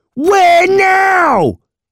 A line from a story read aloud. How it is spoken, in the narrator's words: He screamed